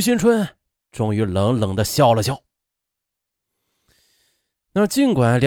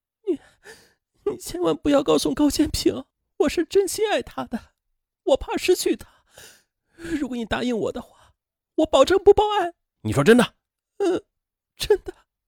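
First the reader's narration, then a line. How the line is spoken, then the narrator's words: Sobbing, pleading. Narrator (Chinese): 梁世阳哭成了泪人，他哀求道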